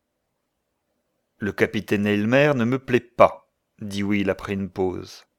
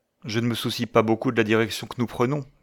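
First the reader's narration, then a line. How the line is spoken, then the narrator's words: Plain. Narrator (French): dit-elle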